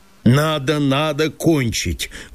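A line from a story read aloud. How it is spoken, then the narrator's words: Dull stern self-repetition. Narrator (Russian): твердил самому себе тупо и строго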